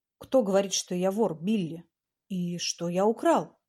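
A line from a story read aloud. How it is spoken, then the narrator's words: Plain. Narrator (Russian): спросил он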